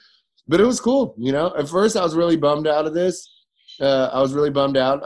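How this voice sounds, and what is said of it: Usual voice. Nothing is said of it.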